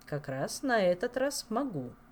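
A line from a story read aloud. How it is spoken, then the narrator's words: Calm king. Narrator (Russian): спокойно ответил король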